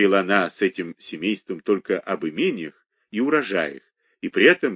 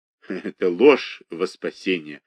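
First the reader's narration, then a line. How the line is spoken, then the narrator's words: Laughing. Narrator (Russian): рассмеялась Ариадна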